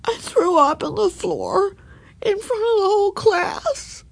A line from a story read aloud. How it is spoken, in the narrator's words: sobbed Ramona